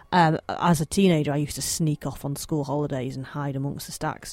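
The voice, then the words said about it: Slight Manchester accent. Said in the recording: “I'm local to Manchester, as you may be able to tell by my slight accent.”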